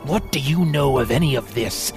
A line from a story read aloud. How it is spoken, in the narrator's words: He growled